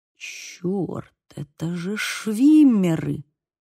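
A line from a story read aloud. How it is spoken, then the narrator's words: Whispered. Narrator (Russian): прошептал Бейл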